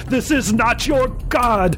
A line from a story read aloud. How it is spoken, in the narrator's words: I screamed frantically